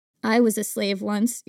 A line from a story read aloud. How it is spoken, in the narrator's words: your mother says softly